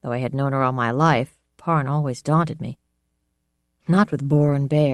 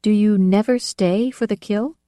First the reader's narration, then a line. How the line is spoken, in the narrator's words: asked timidly